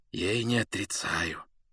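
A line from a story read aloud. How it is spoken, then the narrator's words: Near whisper. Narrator (Russian): почти шепотом сказал он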